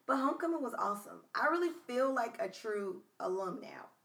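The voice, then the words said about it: Tired, fading voice. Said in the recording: “My voice is trying to leave me. That's because I'm tired.”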